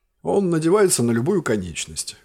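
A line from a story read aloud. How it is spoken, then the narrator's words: Smirking. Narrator (Russian): хмыкнул князь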